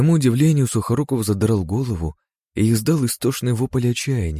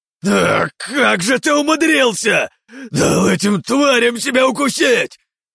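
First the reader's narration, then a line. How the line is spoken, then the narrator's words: Shouted. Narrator (Russian): прокричал он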